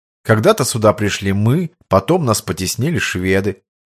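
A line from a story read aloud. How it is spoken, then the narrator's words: Calm. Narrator (Russian): спокойно проговорил Войнилович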